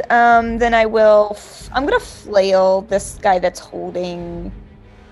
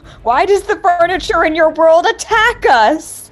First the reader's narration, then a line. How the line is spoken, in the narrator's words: I'm gonna yell